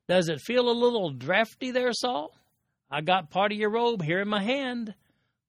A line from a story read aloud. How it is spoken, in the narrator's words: the voice of David hollering